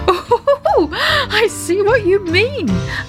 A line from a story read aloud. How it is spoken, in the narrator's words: laughed Daddy Ted